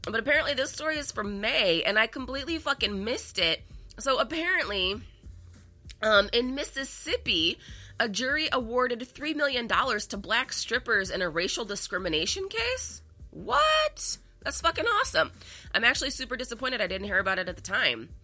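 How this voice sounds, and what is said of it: Gruff, congested voice. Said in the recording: “I'm still dealing with this fucking sinus infection ... hear it in my voice. I sound so fucking gruff right now”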